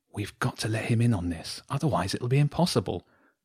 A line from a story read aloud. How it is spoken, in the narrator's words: she whispered to James